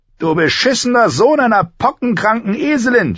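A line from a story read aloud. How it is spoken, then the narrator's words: Shouted. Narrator (German): schrie er ihn an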